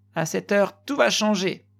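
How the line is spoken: Shouting. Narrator (French): criait-il

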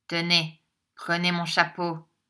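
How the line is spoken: Imperious tone. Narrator (French): dit Ralph d'un ton impérieux

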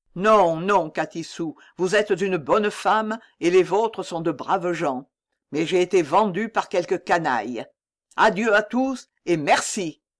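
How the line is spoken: Shouting. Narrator (French): cria-t-il

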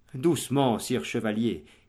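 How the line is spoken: Plain. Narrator (French): dit Valdemar

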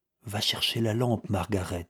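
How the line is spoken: Low voice. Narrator (French): dit Wilmot à voix basse

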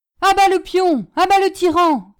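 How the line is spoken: Crowd shouting. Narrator (French): cria-t-on de toutes parts

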